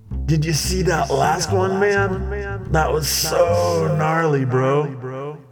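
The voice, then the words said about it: Southern California surfer accent. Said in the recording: “It was an unmistakable Southern California accent,”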